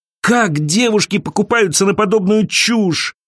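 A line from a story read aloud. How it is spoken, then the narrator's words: Groaning. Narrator (Russian): простонала Элиза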